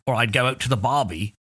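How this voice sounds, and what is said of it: Poor put-on Australian accent. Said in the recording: “Apologies for the poor Aussie accent.”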